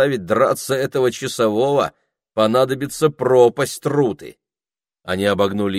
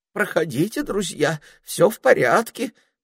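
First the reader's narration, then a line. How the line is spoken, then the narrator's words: Sentry's trembling voice. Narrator (Russian): проговорил часовой дрожащим голосом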